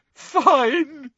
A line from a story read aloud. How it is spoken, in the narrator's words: said Hermione, now sobbing into her hands again